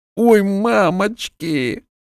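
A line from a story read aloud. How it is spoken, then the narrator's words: Moaning. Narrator (Russian): стонал Рябой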